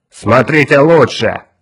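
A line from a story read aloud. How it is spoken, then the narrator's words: Shout. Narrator (Russian): крикнул Улькворн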